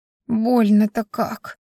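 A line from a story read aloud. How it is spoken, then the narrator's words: Moaning in pain. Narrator (Russian): простонала я, чувствуя, как снова жжется метка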